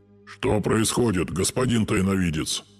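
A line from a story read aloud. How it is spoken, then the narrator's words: Ghost's hoarse question. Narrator (Russian): хрипло спросил меня призрак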